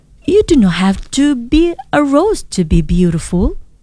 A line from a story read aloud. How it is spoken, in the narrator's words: Rose smiled gently and said